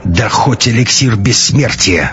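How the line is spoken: Angry hiss. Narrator (Russian): зло прошипел он

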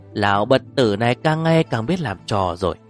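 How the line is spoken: Loud smug laughter. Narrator (Vietnamese): Thái Kinh cười lớn, dáng vẻ rất đắc ý

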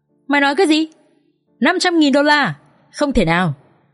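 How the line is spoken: Loud shout into phone. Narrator (Vietnamese): Kha hét lớn vào trong điện thoại

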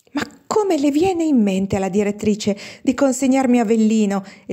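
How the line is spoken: Exclaimed. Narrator (Italian): esclamava Ida Torelli, la seconda sorella

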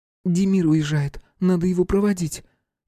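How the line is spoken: Frightened princess babbling. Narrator (Russian): испуганно пролепетала принцесса

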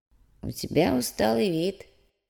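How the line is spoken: Quiet old man's voice. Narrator (Russian): негромко проговорил старик

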